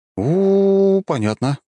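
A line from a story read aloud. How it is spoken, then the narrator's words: Drawn out. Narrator (Russian): протянул я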